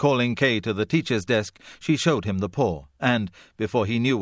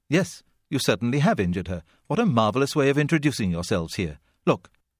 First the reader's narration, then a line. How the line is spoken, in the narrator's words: ignoring everything except the result, she said